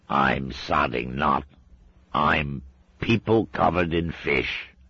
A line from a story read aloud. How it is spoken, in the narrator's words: croaked Scuzz